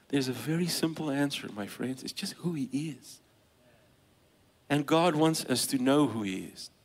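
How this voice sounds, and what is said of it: Speaker's own foreign accent. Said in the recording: “my accent”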